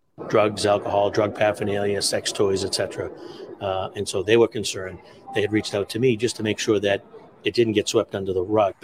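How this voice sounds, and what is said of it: Boston accent. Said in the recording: “that's a Boston accent? That's Irish Bostonian.”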